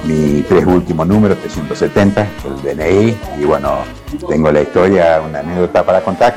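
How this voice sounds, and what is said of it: Beautiful radio announcer voice. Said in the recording (Spanish): “¡Qué voz de locutor! ... él tiene una voz hermosa”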